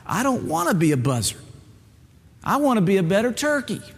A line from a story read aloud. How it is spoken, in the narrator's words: Bubba cried